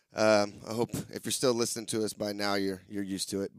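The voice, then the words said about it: Raspy, hoarse voice. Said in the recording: “always for my raspy ass voice”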